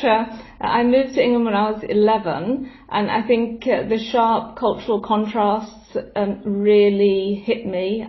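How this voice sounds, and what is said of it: English accent. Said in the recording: “It's hard to hear that. My English accent's very English.”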